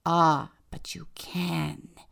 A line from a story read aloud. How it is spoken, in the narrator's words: the father hissed